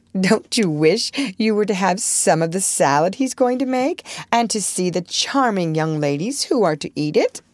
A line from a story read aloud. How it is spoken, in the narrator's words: Amy said, laughing